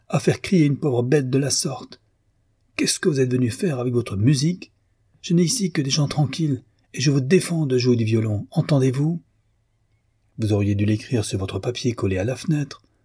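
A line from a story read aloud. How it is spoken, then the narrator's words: Exclaiming. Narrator (French): s'écria-t-elle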